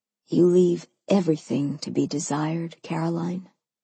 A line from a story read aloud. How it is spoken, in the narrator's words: he said softly